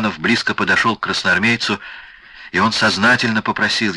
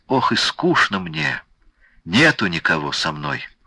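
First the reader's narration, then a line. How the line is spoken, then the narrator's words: Quiet, sincere. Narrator (Russian): Красноармеец тихо сказал с такой искренностью, когда не ждут ответа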